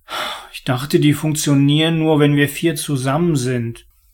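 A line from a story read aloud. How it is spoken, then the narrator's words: Mumbled. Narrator (German): nuschelte er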